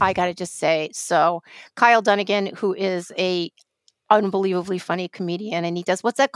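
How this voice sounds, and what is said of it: Usual voice. Nothing is said of it.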